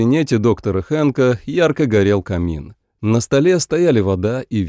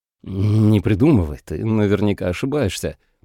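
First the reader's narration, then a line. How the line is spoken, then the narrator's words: Muttered. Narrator (Russian): пробормотал Рикард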